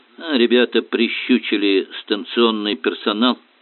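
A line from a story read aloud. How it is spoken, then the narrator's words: Calm report. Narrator (Russian): спокойно сообщил воин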